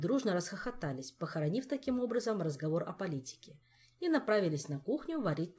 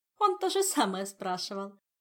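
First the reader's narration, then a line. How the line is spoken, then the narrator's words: Laughing. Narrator (Russian): засмеялась Ольга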